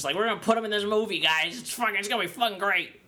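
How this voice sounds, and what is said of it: Impression of a casting director. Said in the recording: “That's my impression of the casting director”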